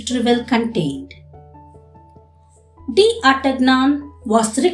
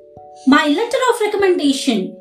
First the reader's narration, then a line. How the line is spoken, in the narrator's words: cried D